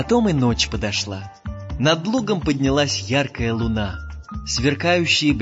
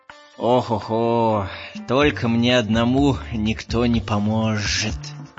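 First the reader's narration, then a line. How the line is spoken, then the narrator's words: Grumbling. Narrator (Russian): ворчал Жумбурка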